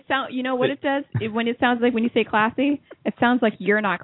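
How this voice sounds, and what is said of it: Usual voice. Nothing is said of it.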